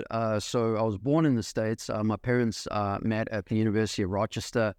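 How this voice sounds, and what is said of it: South African accent. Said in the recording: “as you might be picking up from the accent, definitely not from around here in Nashville, Tennessee ... I'm still working on the accent ... South Africa, which is where I'm from”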